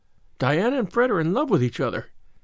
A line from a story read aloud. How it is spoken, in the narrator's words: she gasped